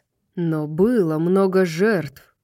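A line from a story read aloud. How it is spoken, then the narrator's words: Growled. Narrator (Russian): прорычал Итан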